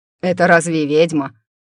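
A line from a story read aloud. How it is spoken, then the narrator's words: Ghostly snort. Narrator (Russian): фыркнул призрачный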